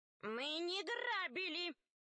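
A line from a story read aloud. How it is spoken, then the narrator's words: Shouting together. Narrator (Russian): закричали ящерицы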